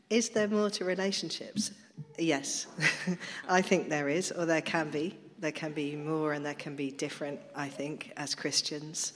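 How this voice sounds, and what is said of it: Husky voice from a cold. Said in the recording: “Excuse me sounding a bit husky... I've just got a bit of a cold.”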